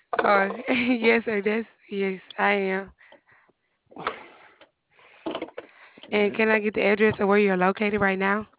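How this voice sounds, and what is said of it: Thick Southern American accent. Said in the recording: “you got a thick Southern accent. I could barely understand. ... Southern accents”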